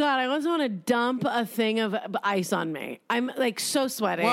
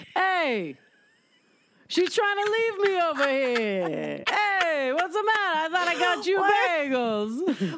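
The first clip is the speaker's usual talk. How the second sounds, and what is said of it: Exaggerated offensive Italian accent. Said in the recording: “a bad Dice Clay to like a very offensive Italian accent”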